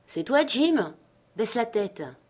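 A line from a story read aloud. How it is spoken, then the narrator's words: Hailing call. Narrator (French): Silver … nous hela pour savoir si c'était moi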